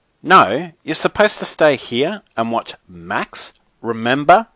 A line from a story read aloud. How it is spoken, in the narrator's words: I said sternly